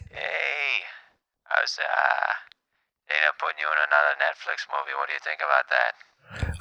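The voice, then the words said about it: Sounds a little sick. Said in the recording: “You sound a little sick.”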